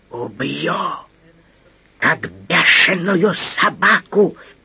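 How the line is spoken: Furious hiss. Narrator (Russian): Прошипел британец, глаза стали бешеные

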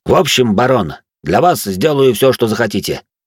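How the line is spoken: Confident voice. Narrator (Russian): произнес он уверенным голосом

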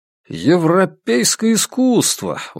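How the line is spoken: Exclaimed. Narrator (Russian): воскликнул Вандерберг

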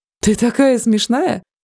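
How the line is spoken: Bursting laughter. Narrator (Russian): расхохотался Яц

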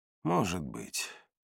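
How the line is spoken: Sighing. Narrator (Russian): вздохнул я

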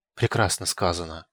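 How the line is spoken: Loud whispering, many voices. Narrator (Russian): громко зашептались придворные

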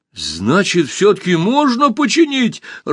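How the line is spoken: Happy question. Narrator (Russian): радостно спросил Пашка

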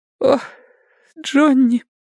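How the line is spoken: Strangely muffled sob. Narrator (Russian): всхлипнула она странно приглушенным голосом

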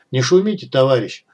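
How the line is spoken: Calm. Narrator (Russian): спокойно проговорил Вадим

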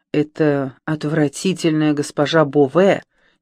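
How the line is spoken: Annoyed grumble. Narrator (Russian): недовольно проворчала раздосадованная госпожа де Мотвиль

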